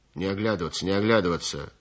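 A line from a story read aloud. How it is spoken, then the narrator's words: Guard's gruff grumble. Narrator (Russian): проворчал задний конвойный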